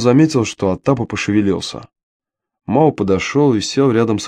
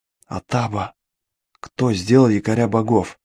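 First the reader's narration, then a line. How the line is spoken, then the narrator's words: Whisper. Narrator (Russian): шепнул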